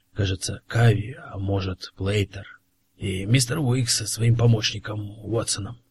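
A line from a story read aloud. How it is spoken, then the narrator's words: Excited whisper. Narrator (Russian): возбужденно прошептал Коллинз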